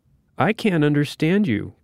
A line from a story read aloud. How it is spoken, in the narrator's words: Granddad Jay said more loudly